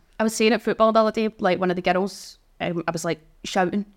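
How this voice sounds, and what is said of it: Scottish accent. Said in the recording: “Is this accent Irish or Scottish?... it's a Scottish accent. So born in Glasgow.”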